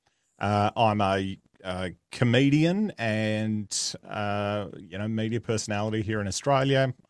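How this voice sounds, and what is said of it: Australian accent. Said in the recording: “I am Australian, if the accent didn't give it away.”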